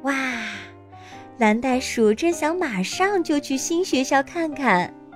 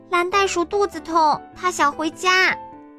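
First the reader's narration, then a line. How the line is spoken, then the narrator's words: Shout. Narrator (Chinese): 丽丽大叫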